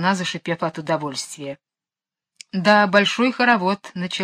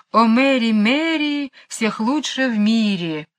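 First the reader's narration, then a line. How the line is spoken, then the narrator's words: Penguin singing cheerfully. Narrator (Russian): пингвина, весело распевая эту странную песню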